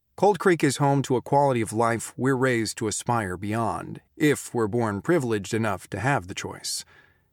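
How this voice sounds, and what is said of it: True-crime podcast narrator voice. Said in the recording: “they often try to set the scene for you, and you can hear Dan Bittner narrating as this podcast producer ... I keep thinking of it as a podcast voice.”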